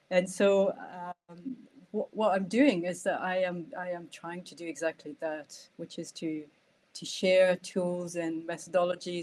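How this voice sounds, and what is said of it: Scottish accent with another accent underneath. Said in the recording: “that lovely accent that you have comes from, you've got a beautiful Scottish accent, but there's a wee sneaky accent behind it”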